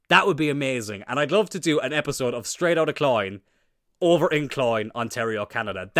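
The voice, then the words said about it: Irish County Cork accent. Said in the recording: “Isn't it obvious from my accent that I'm from Cloyn?”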